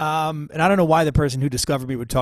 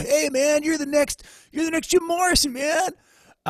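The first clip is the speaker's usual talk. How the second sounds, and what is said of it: Laid-back stoner voice. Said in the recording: “talk like a total pothead stoner”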